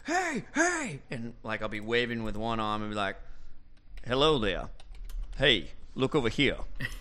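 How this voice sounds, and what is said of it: Jeff Goldblum impression. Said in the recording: “I'm gonna do my best, chaos theoretician, Jeff Goldblum impersonation”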